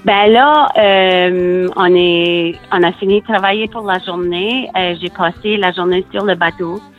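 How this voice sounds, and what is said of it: New Brunswick Acadian French accent. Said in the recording (French): “je vis à Murray Corner, au Nouveau-Brunswick ... on parle un peu le chiac ici. Comme tu sais, on a un accent un peu différent ... les personnes nous parlent en anglais parce qu'ils pensent qu'on a des problèmes à parler en français, mais c'est notre accent.”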